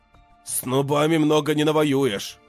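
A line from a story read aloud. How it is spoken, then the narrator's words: Snort. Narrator (Russian): хмыкнул Барий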